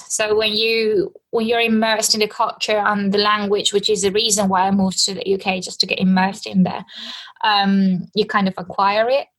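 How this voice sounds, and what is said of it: Non-native speaker with British-sounding accent. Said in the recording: “British accent ... You can tell I'm not native. You can tell English is not my first language, but I do realize that I sound a bit more British”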